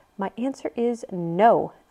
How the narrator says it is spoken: Elsa said firmly

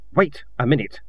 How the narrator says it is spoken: said Kin sharply

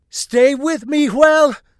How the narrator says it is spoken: Savardin shouted

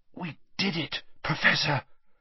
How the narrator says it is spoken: Harry whispered with difficulty

